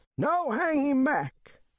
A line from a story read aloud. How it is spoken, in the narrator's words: shouts old Dan House